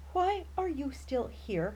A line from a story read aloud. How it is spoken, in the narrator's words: Jeffrey whines